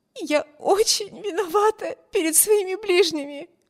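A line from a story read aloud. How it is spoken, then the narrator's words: Sobbing. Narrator (Russian): всхлипывала Эми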